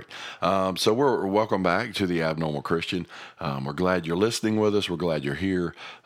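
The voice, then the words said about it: Gravelly, rough voice. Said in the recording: “it's a little more gravelly ... Sounds like he's been smoking for 20 years ... Excuse my voice. I've been dealing with some sinus trouble”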